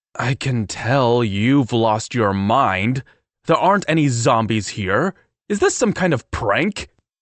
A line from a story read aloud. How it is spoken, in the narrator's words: My voice got louder with every word